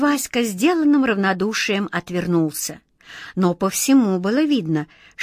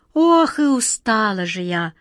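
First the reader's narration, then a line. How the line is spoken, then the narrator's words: Sighing swallow. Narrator (Russian): вздохнула ласточка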